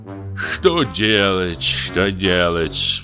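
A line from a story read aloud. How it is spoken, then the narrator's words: Sighing. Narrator (Russian): вздохнул председатель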